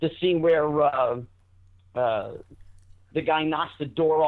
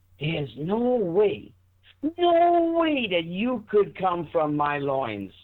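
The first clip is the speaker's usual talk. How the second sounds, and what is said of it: Jackie Gleason impression. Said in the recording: “I would do impressions of him ... do an impression? ... of, of Gleason?”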